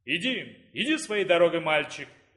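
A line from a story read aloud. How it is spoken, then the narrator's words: Booming creature. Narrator (Russian): прогудел существо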